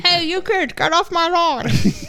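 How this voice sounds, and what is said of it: Put-on unidentified accent. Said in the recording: “I don't know what accent that is. It's like my ice block accent.”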